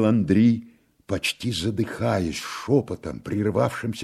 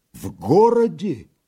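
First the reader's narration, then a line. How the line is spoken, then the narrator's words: Agitated, nearly crying out. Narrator (Russian): произнес он, едва опять не вскрикнувши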